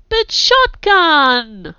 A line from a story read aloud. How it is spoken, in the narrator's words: Holly whined